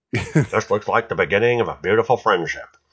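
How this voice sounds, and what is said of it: Poor impression of another person's voice. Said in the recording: “that's an impersonation I can't do. ... I don't even know what you were trying to impersonate. ... I was trying to do Bogart. ... I wasn't trying to do Charlie Brown.”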